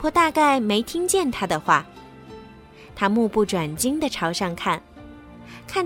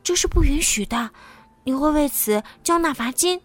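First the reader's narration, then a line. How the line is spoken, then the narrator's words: Frightened whisper. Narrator (Chinese): 安迪害怕的小声说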